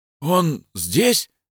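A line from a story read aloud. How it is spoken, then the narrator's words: Hoarse breathy exhale. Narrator (Russian): хрипло выдохнул Родченко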